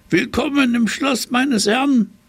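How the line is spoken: Tomcat calling out. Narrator (German): rief der Kater

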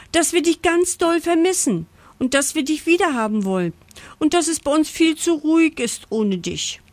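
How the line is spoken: Breathless gasping. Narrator (German): japst Pucki atemlos

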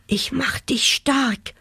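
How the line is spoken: Whisper. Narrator (German): flüsterte

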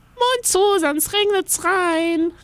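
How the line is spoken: Call. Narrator (German): rief Inga

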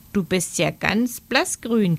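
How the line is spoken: Croaking female voice. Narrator (German): krächzte sie

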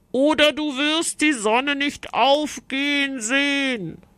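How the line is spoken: Knight calling out. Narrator (German): rief die Ritterin

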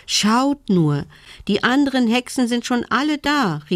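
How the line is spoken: Excited call. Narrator (German): rief sie aufgeregt

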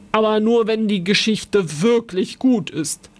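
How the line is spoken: Suspicious old man's growl. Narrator (German): Der alte Mann knurrte misstrauisch, dann sagte er

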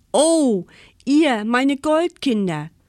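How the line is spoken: Called out. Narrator (German): rief Väterchen Winter

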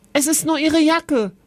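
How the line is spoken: Called out. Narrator (German): rief Kevin Oskar zu

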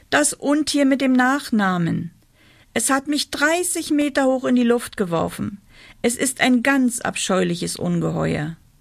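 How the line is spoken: Called out. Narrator (German): rief

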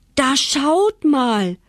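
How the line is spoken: Delighted old man calling. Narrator (German): rief das erfreute Väterchen

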